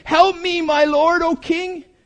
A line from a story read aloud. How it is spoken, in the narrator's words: a woman cried out to him, saying